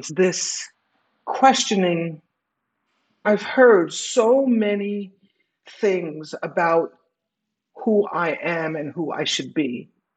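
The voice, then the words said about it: Emotional, wavering voice. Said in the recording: “I'm getting emotional,”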